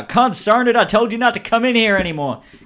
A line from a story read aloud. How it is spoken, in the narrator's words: The guy behind the counter says, shouts out